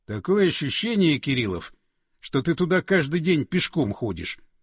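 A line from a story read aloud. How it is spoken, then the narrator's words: Snorting. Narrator (Russian): хмыкнул Андреев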